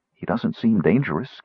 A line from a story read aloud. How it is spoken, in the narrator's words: Kitiara muttered to Sturm